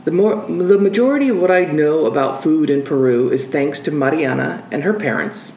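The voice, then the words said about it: American accent. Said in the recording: “in the audio version when you hear my American accent”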